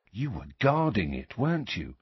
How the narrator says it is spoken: said George quietly

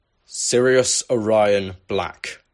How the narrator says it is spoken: Crouch bellowed once the crowd had died down

